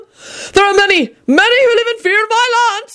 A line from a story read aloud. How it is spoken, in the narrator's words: yelled Sir Cadogan angrily